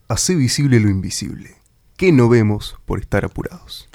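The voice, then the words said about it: Announcer voice. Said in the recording (Spanish): “Decilo vos con voz de locutor”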